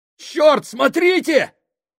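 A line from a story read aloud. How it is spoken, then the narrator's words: Panicked exclamation. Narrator (Russian): с паникой в голосе воскликнул Фабрини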